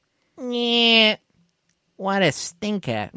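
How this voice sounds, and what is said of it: Bugs Bunny cartoon voice impression. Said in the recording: “in the words of Bugs Bunny ... that Bugs Bunny impression ... I was doing it way better in my car”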